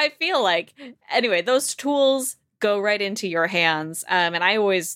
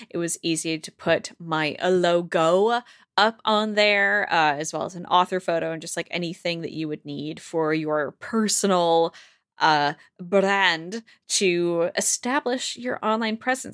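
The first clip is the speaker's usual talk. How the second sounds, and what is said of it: Flat, robotic ad-read delivery. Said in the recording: “I sound like a robot right now, but this is an ad lib.”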